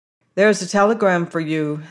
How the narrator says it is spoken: said a voice

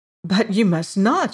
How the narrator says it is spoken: she cried

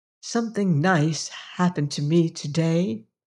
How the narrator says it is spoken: said softly

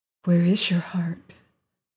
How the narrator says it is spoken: whispered the girl

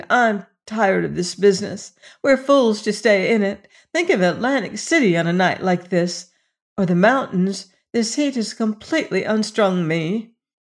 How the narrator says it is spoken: presently exclaimed

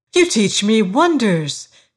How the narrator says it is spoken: she cried

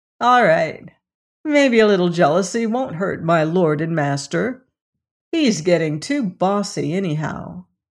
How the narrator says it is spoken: saying with a short laugh

